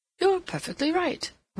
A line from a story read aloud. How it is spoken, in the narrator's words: Rodney exclaimed